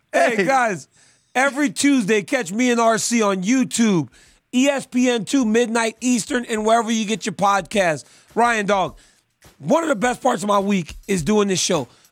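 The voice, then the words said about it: Hoarse, strained voice. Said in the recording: “My voice is so bad now because I'm doing my wrestling camp. ... I got to go back and do some more yelling.”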